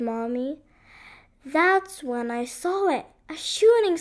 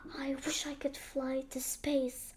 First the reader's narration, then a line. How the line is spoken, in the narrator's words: I whispered